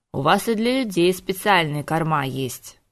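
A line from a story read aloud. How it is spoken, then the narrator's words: Irritated grumbling. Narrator (Russian): проворчал Диего, раздраженно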